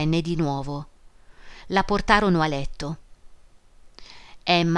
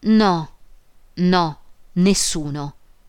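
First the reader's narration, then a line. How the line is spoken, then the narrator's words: Broken voice. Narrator (Italian): Emma disse con voce rotta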